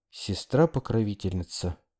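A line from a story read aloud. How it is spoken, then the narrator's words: Whisper. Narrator (Russian): прошептал я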